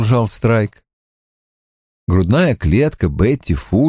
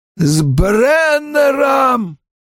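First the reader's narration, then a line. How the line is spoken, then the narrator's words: Hoarse wheeze, coughing. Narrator (Russian): прохрипела она и вновь зашлась кашлем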